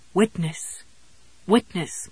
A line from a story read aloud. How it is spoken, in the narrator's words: pleaded, fading out now